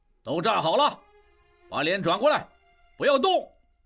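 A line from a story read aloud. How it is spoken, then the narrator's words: Officer shouting. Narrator (Chinese): 一名负责行刑的军官对他们喊道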